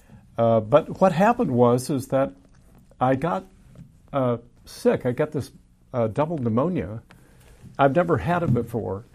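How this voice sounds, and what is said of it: Slightly raspy, hoarse voice. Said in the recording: “my voice is still a little raspy”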